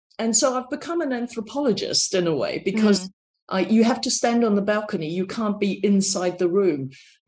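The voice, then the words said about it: Strong New Zealand accent. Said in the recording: “my accent is very New Zealand”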